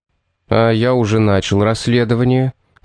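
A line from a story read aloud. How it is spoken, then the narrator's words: Calm. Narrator (Russian): спокойно ответил Томас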